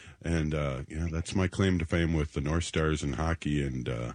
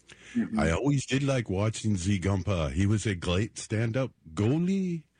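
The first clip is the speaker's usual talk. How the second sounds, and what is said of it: Put-on French-Canadian accent. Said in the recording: “accent, too. Yeah, yeah, French-Canadian.”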